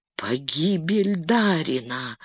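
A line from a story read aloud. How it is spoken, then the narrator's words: Whisper. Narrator (Russian): прошептал он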